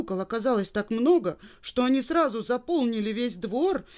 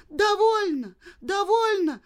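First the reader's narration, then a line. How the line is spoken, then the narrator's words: Terrified scream. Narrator (Russian): в ужасе закричала Женя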